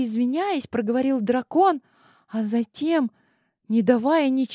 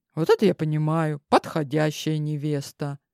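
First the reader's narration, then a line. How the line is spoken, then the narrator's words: Amused snort. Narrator (Russian): хмыкнул Хейзет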